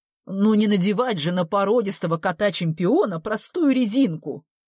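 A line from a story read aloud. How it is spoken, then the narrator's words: Snapped defensively. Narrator (Russian): огрызнулась она, угадав мой упрек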